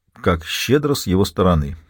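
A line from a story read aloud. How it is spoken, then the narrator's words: Quiet remark. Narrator (Russian): тихо заметил Теодорг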